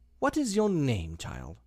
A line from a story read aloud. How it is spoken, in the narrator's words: said the queen, tossing her head impatiently